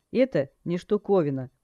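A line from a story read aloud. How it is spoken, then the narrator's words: Teacher's scoffing snort. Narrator (Russian): преподаватель хмыкнул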